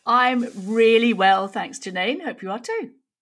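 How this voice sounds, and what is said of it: Yorkshire English accent. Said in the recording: “that's not an Aussie accent ... I was born in York, so I'm a Yorkshire lass”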